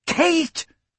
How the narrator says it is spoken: Emma cried

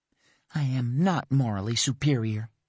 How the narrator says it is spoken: she muttered

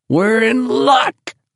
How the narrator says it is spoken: Richie shouted over the noise of an engine at maximum power

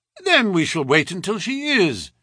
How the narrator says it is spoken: said Holmes cheerfully

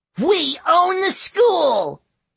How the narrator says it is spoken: one yelled

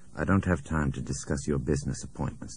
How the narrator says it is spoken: Nick said softly to Krunek

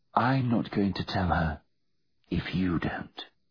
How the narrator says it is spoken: whispered Virginia

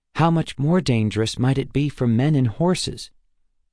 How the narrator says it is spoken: Waylon sighed, his shoulders slumping in defeat and agreement

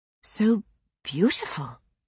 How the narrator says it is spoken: she whispered

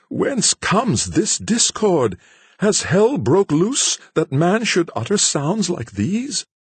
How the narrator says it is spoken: exclaiming

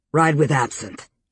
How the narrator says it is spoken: he snapped to Elena

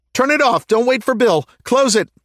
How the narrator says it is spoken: Corporal Chavez gasped, trying to catch her breath without being too loud about it

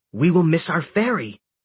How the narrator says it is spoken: Hecate exclaimed

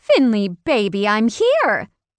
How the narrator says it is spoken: Claire exclaimed in an obvious rush

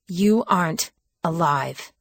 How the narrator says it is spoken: I said through gritted teeth

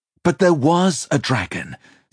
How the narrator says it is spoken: Simon answered hotly

